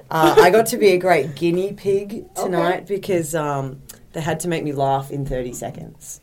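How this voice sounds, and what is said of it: Posh Australian accent. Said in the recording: “lovely accent... very posh Australian”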